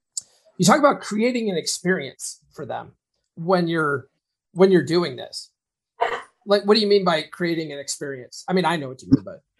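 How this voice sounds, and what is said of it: Hoarse, fading voice. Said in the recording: “man, I'm losing my voice here.”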